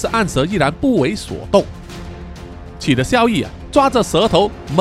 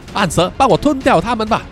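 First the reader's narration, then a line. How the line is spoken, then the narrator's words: Shouting again. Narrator (Chinese): 萧逸 又再喊了一次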